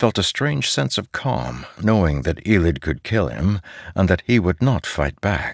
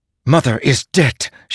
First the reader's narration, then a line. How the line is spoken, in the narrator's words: she snapped